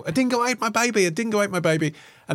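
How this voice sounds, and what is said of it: Hysterical dodgy Aussie accent, Meryl Streep. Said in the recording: “Meryl Streep. She's doing a slightly dodgy Aussie accent and she's a bit hysterical.”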